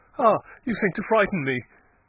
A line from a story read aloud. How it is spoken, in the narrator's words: said with a slight laugh